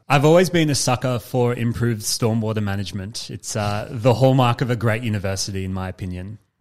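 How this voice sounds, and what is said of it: Sarcastic mock-enthusiastic delivery. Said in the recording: “you're being sarcastic”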